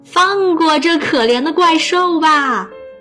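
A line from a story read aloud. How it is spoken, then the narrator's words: Crying out. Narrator (Chinese): 他叫道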